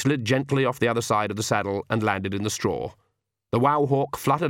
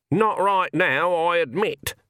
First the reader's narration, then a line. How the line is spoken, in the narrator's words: said Granny, her voice slightly muffled